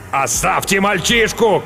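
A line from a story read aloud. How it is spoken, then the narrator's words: Shout from a bloodied man. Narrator (Russian): крикнул римлянин, залитый кровью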